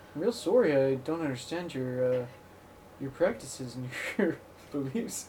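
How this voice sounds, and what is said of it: Put-on Canadian accent. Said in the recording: “I like my Canadian accent. It's fun.”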